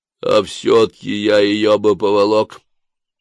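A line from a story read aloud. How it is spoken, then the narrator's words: Loud. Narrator (Russian): громко сказал человек из лужи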